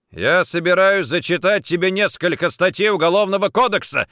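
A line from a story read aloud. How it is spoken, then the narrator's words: Stung, angry bark. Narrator (Russian): рявкнул Никитин, явно задетый самообладанием женщины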